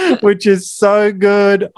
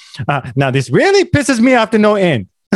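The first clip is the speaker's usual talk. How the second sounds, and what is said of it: Put-on Asian accent, character impression. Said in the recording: “I love the way he speaks... me doing an Asian accent... a loving recreation of a great character”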